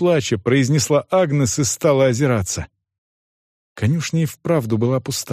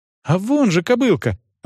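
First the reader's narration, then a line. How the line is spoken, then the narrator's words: Joyful girl's exclamation. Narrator (Russian): радостно воскликнула девочка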